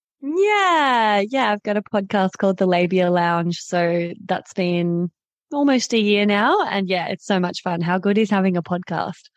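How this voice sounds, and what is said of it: Australian accent. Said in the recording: “you're from Australia... You have an amazing accent.”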